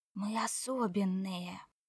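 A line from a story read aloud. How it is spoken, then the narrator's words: Whisper. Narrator (Russian): прошептал он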